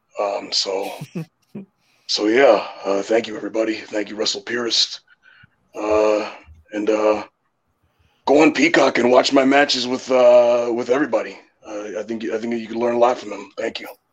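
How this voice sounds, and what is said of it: Bad, unconvincing impression. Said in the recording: “worst impression. ... shambolic. ... there's a bit of a miss on that one”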